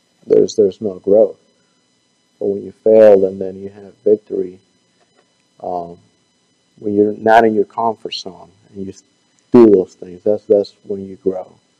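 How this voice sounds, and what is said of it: Weak, fading, hoarse-sounding voice. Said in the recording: “I'm not whispering. I'm losing my voice.”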